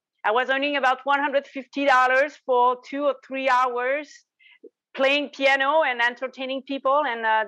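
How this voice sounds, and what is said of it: Quebec French accent in English. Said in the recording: “in a little auberge in a, in the corner of Quebec. So that's where you see my accent.”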